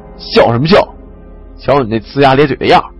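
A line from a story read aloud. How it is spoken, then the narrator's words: Angry. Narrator (Chinese): 王强怒道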